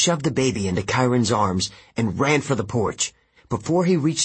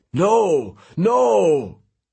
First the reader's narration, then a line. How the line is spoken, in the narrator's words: He cried